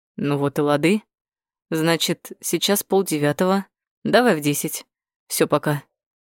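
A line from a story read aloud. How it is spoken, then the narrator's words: Calm. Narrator (Russian): Бакаев проговорил спокойно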